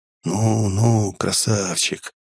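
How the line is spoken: Whispering in ear. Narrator (Russian): зашептал я ему на ухо

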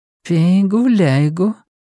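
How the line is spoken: Purred. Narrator (Russian): мурлыкнула Линайна

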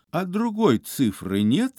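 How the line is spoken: Calm question. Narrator (Russian): спокойно спросил Остап

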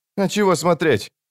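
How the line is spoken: Snapping retort. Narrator (Russian): огрызнулся Крокус

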